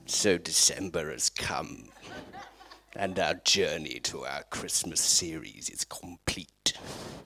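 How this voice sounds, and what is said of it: Evil villain character voice. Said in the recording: “For anyone who knows Star Wars, that was my impression of the evil Emperor Palpatine.”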